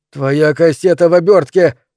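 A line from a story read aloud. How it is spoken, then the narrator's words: Shouting. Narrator (Russian): крикнул мистер Делевин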